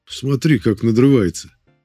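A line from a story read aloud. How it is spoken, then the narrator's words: Amused snort. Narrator (Russian): хмыкнул Воронцов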